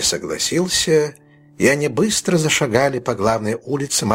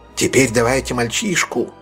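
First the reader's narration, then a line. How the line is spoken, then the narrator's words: Plain. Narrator (Russian): сказал Тоби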